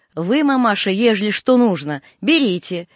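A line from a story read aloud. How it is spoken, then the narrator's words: Deaf man shouting. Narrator (Russian): глухой крикнул ей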